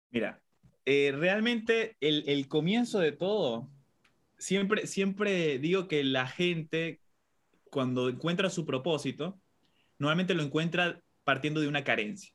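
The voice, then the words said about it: Argentine Spanish accent. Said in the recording (Spanish): “Tienes un acento de Argentina”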